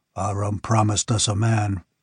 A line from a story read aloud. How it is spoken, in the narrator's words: muttered another